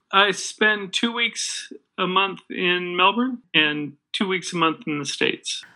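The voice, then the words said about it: Slight American accent. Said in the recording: “I hear a little bit of an accent there. ... Oh, I'm in the States.”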